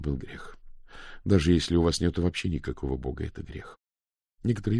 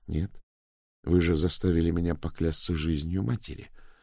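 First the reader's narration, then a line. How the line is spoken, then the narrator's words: Cold. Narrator (Russian): холодно сказала Дафна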